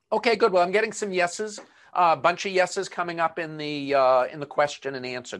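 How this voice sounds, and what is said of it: Boston accent. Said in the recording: “my Boston accent”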